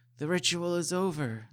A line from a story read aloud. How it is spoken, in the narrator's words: Nobuko cried